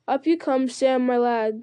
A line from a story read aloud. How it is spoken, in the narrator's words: said Frodo